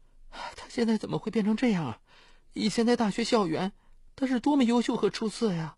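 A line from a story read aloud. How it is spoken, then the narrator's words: Sad sigh over phone. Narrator (Chinese): 他在电话里伤感地叹息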